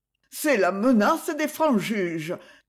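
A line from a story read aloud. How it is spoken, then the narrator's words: Trembling stammer. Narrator (French): balbutia-t-il d'une voix tremblante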